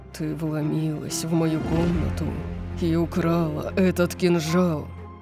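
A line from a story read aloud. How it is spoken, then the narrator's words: Low predatory demand. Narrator (Russian): потребовал он низким хищным голосом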